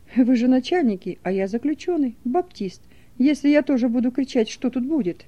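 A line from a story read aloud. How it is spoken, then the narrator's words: Calm question. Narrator (Russian): Фисуненко спокойно спросил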